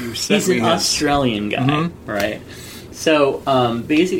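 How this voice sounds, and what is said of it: Usual voice. Nothing is said of it.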